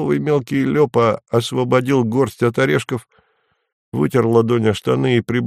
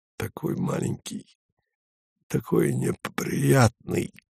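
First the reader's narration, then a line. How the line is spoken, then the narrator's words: Choked voice. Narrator (Russian): сказал ему Вадим перехваченным голосом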